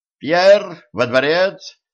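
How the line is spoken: Shouting. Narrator (Russian): закричал секретарь

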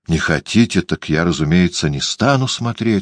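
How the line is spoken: Rather dry. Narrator (Russian): сказал художник довольно сухо

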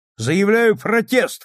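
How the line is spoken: Shouted. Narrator (Russian): крикнул Мейсон

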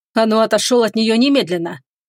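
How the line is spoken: Barely restrained irritation. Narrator (Russian): Герцог едва справился с раздражением и не зарычал

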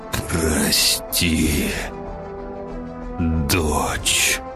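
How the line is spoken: Choked groan. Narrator (Russian): простонал сдавленным горлом Владимир

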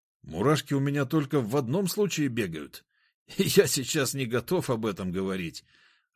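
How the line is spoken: Loud laughter. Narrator (Russian): расхохотался он

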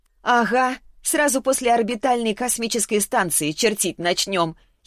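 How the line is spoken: Giggling girl. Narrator (Russian): хихикнула девушка

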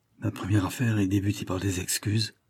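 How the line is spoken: Murmur. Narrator (French): murmura-t-il

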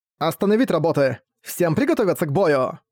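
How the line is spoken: Sharp shout. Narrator (Russian): Резко крикнула Йомика, Орфен Нагасаки

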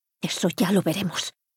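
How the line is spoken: Hurried woman muttering. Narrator (Spanish): masculló ella mientras bajaba las escaleras a toda prisa

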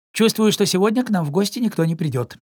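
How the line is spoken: Plain. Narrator (Russian): сказал Пампкин

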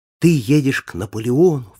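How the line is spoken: Joyful exclamation. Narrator (Russian): вскричал

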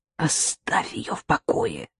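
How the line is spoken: Irritated whisper. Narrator (Russian): раздраженным шепотом ответила Лида

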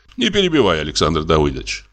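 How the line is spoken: Cold. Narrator (Russian): холодно сказал фон Корен

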